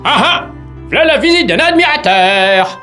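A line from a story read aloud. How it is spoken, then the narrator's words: Vain shout from afar. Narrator (French): s'écria de loin le vaniteux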